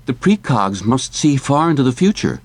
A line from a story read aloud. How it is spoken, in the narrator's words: Whitwer exclaimed